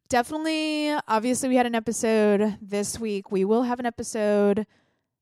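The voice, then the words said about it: Weird-sounding, sinus-affected voice. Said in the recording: “my voice has sounded weird throughout this episode. Pretty sure I have a sinus infection”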